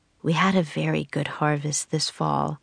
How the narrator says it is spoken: said Priscilla

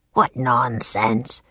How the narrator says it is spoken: croaked the Raven King

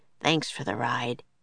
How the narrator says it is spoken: he said softly

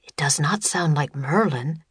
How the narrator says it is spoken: whispered Teddy

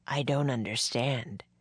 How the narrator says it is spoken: he said in a deep, tired voice

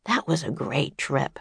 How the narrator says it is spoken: Jack said softly

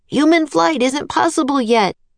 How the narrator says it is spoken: Jack cried

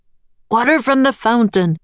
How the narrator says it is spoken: Leonardo roared

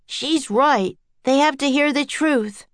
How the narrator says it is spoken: yelled Jack

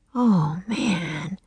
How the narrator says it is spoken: he breathed

